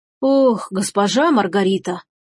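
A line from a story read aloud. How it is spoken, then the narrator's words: Sighing. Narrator (Russian): вздохнул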